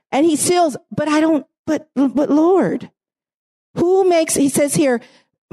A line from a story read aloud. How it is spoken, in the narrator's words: Moses pleaded with the Lord